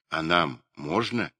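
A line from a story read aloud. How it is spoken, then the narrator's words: Timid question. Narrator (Russian): робко спрашивали они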